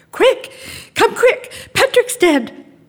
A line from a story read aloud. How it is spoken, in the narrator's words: she cried